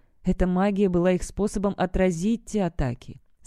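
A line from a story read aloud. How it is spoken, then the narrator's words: Plain. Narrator (Russian): сказала она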